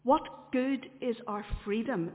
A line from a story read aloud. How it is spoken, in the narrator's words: asked